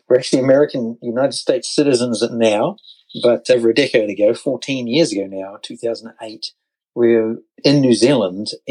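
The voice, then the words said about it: New Zealand accent. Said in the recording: “as you can tell from the accent”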